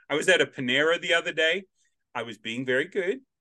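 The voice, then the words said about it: Australian accent. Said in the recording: “my accent and my volume breaks through ... this Australian accent ... I'm the only Australian accent around”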